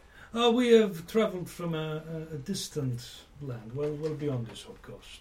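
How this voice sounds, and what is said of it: Unplaceable put-on foreign accent. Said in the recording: “I can't quite place your accent.”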